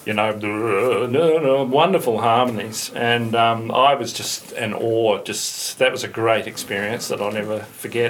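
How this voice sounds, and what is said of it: New Zealand accent. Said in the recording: “here's my accent. He goes, oh, you're from New Zealand, huh?”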